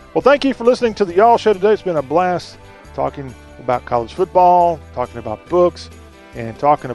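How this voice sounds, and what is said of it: Southern American accent. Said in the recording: “Talk with a Southern accent.”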